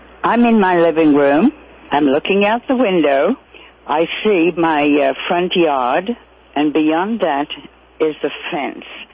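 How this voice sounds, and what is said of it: Slight British accent. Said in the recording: “she has a slight British accent”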